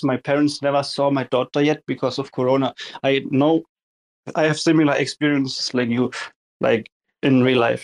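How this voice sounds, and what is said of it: German accent. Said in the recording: “the accent is German”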